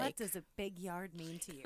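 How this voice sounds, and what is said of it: Sultry late-night DJ voice. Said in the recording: “in my sexy voice ... Was that your nighttime DJ voice? ... That's my nighttime”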